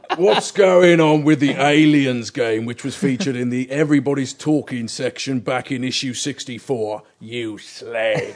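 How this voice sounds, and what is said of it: Put-on Big Bad Liam character voice. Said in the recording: “now I've got to do a Big Bad Liam voice”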